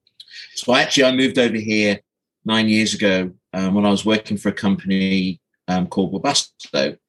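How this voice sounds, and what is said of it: Non-Midwestern accent. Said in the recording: “this isn't a Midwest accent that I've got”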